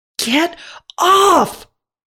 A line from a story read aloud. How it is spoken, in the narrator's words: someone screams